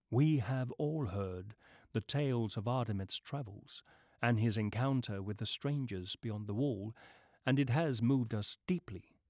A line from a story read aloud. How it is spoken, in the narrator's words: she said in a voice that gently crept up the steps toward Nereith and landed softly on the goddess's ear